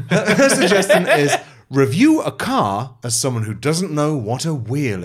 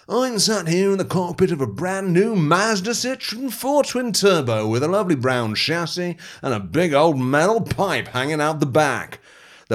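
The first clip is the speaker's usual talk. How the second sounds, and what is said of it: Mock car reviewer voice. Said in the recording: “put on my car reviewing voice”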